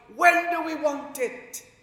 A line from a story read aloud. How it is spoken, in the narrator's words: they will shout